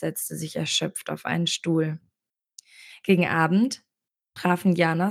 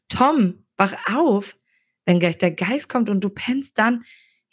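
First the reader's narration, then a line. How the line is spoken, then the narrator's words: Called out. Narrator (German): rief Jana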